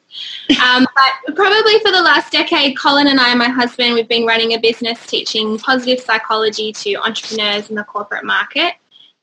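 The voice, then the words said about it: Australian accent. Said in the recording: “I'm an Aussie, as you can probably tell from my accent”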